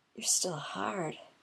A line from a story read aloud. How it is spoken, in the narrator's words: whispers